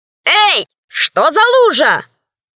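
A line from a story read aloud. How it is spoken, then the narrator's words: Shouted. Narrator (Russian): закричала она с порога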